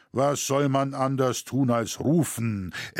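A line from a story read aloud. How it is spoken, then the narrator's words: Armored man, booming reply. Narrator (German): erwiderte mit dröhnender Stimme der Gewappnete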